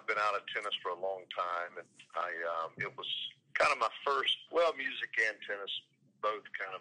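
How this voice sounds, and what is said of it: Slight North Carolina accent. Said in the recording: “you can kind of detect a little bit of the accent ... You love the accent. ... In the voice. I always like the North Carolina accent.”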